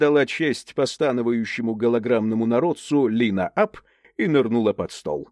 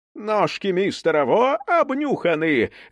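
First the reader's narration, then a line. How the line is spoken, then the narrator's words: Booming, dim-witted outburst. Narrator (Russian): зычным голосом умственно отсталой дуры разразилась блок-леди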